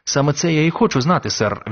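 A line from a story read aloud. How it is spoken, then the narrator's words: Plain. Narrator (Ukrainian): відповів Крісті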